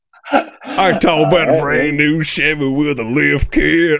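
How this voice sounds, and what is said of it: Country singer Louisiana accent. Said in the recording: “your Louisiana accent is just ... on point? ... I can do a decent Florida Georgia line”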